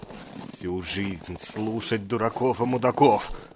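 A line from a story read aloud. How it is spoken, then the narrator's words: Angry mutter to himself. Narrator (Russian): Зло бормотал он себе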